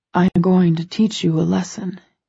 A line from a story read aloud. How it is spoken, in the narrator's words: he murmurs